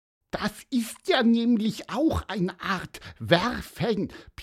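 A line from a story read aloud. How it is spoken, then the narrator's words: Squeaky voice. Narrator (German): piepste er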